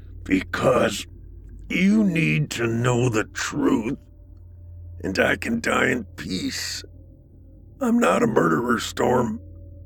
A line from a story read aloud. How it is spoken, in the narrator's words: Through gritted teeth, he said